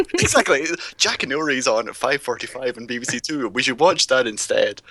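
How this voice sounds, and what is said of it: British accent. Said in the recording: “I grew up in the UK, obviously. My accent gets out.”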